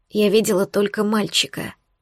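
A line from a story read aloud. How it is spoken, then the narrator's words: Quiet reply. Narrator (Russian): ответила тихо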